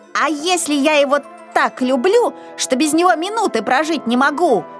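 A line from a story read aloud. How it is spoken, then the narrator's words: Shouting. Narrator (Russian): кричал Изюмка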